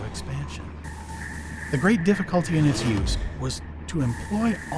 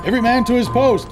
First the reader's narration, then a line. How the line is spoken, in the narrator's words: shouted